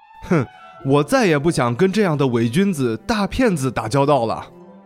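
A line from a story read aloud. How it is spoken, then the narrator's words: Laughing. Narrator (Chinese): 小伙子笑着说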